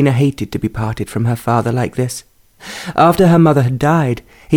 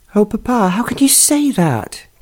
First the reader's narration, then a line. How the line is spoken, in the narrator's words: she cried